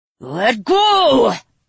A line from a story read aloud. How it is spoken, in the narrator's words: he roared